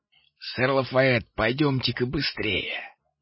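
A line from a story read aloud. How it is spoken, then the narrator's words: Hiss. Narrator (Russian): прошипел голос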